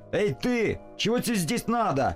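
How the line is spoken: Shouted. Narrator (Russian): крикнул Нильс

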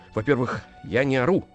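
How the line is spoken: Stammering. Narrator (Russian): сказал он, заикаясь

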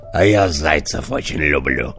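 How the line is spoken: Wolf's growl. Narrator (Russian): зарычал волк

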